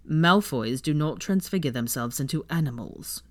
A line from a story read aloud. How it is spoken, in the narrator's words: Draco responded stiffly, mostly because he was afraid it would be a ferret